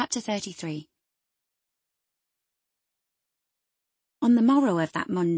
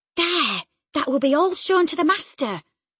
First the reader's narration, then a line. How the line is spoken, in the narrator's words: I exclaimed